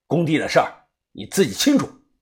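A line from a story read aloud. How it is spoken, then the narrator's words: Cold. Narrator (Chinese): 冷声的说道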